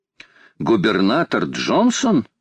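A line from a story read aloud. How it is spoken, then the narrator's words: Exclaimed. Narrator (Russian): воскликнул Паганель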